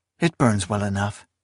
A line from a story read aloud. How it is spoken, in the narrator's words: Esmenet murmured